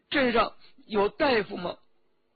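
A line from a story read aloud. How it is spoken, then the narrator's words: Asking after crying. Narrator (Chinese): 周启哭了一会儿，就问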